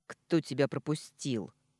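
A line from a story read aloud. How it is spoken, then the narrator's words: Rude question. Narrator (Russian): грубо спросила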